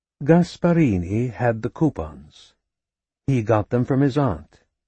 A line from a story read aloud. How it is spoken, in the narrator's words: she said, speaking slowly as she ordered things in her mind